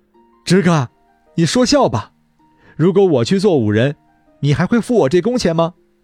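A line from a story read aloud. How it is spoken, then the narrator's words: Surprised, laughing. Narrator (Chinese): 吃惊…中锋…笑着说道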